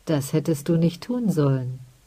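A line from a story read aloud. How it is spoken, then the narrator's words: Said quietly. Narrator (German): sagte er leise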